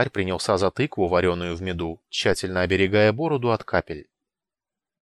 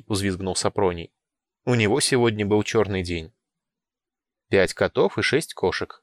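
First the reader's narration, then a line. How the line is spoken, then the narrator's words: Calm clarification. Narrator (Russian): спокойно уточнил Павлидий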